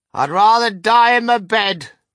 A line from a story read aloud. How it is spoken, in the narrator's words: shouted Grandma Josephine